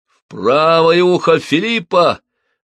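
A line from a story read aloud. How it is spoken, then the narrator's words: Loud. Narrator (Russian): громко сказал Рене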